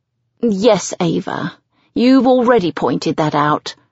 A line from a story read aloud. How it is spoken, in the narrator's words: she says haughtily